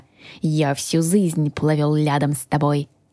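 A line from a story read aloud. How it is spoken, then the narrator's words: Reminding. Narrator (Russian): напомнил дракон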